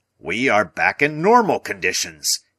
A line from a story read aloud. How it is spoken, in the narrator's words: he cried